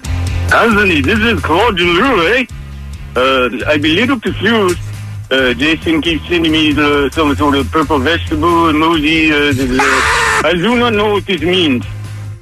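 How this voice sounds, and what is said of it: French-Canadian accent sounding Spanish. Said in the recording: “your French-Canadian accent sounded more like a Spanish accent.”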